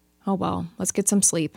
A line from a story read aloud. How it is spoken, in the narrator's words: sighed, not wanting to think about it anymore